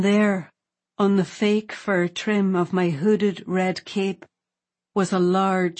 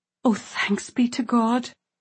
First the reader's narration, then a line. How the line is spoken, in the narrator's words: gasped my aunt